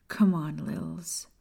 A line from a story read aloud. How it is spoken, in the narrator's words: Maya whispered, fear sinking into her